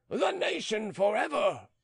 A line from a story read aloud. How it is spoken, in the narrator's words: Beausire stamped down the grand stairs, waving his large sword and shouting